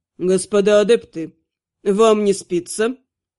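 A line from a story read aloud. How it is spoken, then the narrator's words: Even-voiced question. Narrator (Russian): Ровным голосом поинтересовался он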